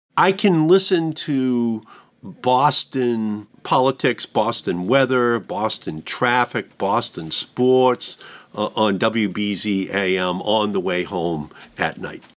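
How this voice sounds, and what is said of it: Boston accent. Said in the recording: “Boston accents, too, I imagine.”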